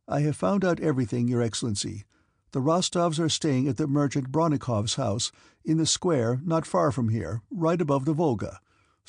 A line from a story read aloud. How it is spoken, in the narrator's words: said the courier